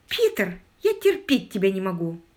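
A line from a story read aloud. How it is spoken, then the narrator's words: Exclaimed. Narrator (Russian): воскликнула Мэри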